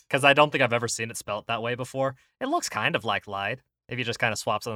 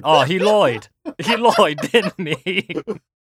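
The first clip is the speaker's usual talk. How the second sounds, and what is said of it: Put-on accent. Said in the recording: “it's like saying lied with an accent.”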